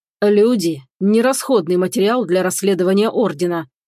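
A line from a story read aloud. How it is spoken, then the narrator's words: Growling. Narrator (Russian): прорычал Роланд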